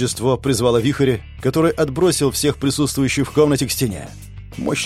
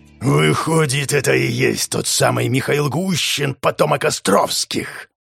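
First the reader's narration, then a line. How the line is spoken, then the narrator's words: Growled by a monster. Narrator (Russian): прорычала тварь, еще недавно бывшая великим князем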